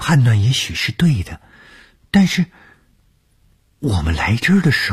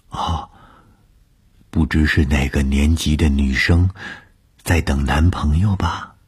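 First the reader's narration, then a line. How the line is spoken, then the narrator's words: Whisper in ear. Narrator (Chinese): 她凑在我的耳边低声地说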